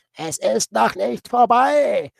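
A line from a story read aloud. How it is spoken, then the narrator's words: Frantic scream. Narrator (German): schrie er wie irre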